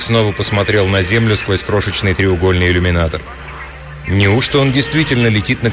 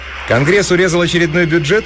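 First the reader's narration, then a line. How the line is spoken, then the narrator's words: Cheerful question. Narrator (Russian): весело спросила Тесса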